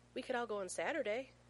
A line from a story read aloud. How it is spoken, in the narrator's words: John whimpers